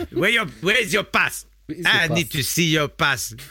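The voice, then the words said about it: Put-on South African accent. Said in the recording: “South African's the last accent that you're still allowed to do”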